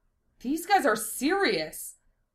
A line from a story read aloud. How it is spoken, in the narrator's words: Shira gasped